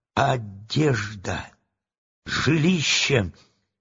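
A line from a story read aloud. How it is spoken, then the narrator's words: Sudden startled mutter. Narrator (Russian): Страшила вдруг встрепенулся и забормотал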